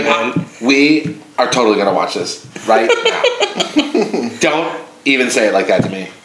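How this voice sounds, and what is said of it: Impression of ex-girlfriend's voice. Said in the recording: “you would do her accent or her, you would do an impression of her that was dead on”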